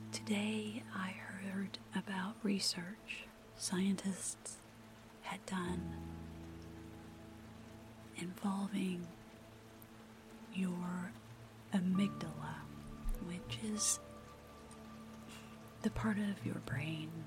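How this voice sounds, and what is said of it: Soft, soothing bedtime reading voice. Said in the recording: “I'll be reading God's Word to you in a soft voice that will help you sleep in heavenly peace”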